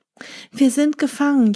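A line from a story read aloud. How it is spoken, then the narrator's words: Wailing. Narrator (German): jammerten sie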